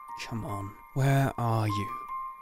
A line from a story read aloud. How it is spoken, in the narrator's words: he mumbled